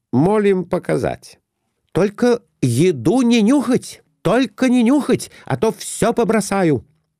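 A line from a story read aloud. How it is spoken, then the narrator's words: Exclaiming. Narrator (Russian): Опять воскликнула Глафира Семеновна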